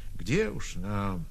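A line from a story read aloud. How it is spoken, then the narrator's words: Quiet admission. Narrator (Russian): Кто-то сознался, тихо сказав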